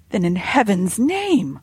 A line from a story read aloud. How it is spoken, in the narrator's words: cried, unable to bear the suspense any longer